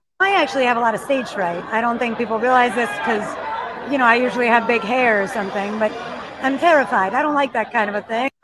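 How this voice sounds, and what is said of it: Old-fashioned Beverly Hills woman accent. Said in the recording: “what decade is she from? She 80s? ... Like Judy Garland Minnelli. Like, every older woman in Beverly Hills has this accent.”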